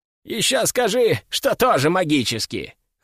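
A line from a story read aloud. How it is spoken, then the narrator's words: Skeptical snort. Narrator (Russian): хмыкнул Альфред, скептически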